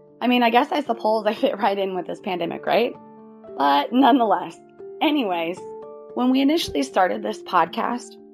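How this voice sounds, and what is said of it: Raspy, hoarse voice. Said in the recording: “Pardon my raspy, hoarse voice.”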